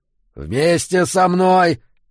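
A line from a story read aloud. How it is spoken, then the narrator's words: Growled. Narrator (Russian): зарычал Эммет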